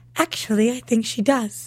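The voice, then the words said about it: Imitates a TV character's voice. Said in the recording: “That was a really good imitation. ... That sounds exactly like Bree.”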